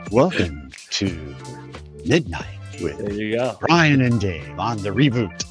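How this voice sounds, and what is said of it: FM radio DJ voice. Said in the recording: “FM DJ voice”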